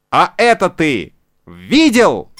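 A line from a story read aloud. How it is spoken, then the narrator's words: Shouting into ear. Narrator (Russian): крикнул ему в ухо Буратино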